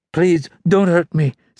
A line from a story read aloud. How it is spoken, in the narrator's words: said the young woman, her voice trembling